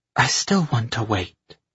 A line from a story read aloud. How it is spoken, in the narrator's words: she said quietly